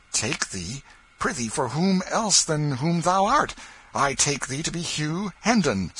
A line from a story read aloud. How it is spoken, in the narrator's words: said Miles sharply